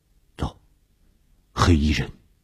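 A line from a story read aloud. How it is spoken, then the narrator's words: Low voice. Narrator (Chinese): 低声地说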